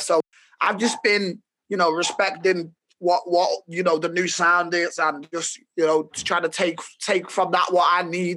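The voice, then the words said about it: Merseyside Liverpool accent. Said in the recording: “they probably guess from your accent a little bit ... Merseyside is a county in the north of England, northwest of England ... The main city in Merseyside is Liverpool.”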